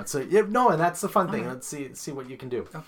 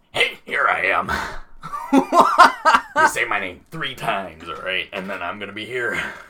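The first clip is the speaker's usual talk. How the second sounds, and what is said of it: Impression of Beetlejuice. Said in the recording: “Oh, that's Beetlejuice.”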